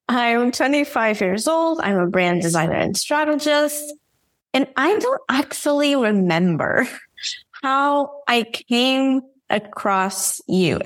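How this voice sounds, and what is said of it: Portuguese-accented English. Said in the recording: “I'm from Porto, Portugal, hence the whole accent thing”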